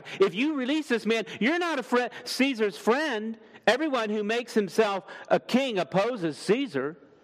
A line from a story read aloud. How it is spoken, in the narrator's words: the Jews cried out